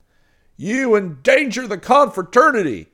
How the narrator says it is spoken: he shouted again

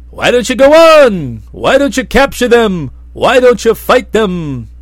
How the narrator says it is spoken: Quietawful yelled at the captain

